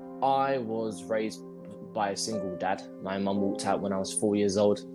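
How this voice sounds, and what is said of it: London accent. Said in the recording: “I'm from London, if you can't tell by the accent.”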